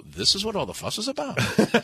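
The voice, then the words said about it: Poor Northern Irish accent, sounds Jewish. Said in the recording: “Now I'm doing a Jewish accent for Northern Irish ... You really don't do an Irish accent.”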